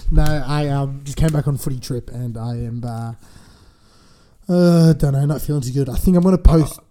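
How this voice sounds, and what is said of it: Croaky, rough voice. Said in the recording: “why does his voice sound so sexy? ... I reckon that croaky voice does sound a little bit sexy. ... it was a lot croakier yesterday”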